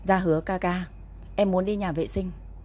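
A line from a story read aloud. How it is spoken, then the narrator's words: Quiet voice. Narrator (Vietnamese): Tang Chỉ nhỏ giọng nói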